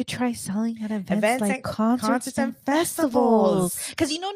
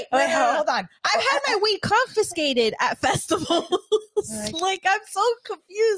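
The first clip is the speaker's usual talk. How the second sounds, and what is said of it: Yelling in shocked disbelief. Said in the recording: “I'm yelling.”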